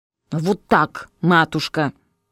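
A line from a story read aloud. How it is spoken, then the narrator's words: Grumbling reply, daughter. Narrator (Russian): Буркнула в ответ дочка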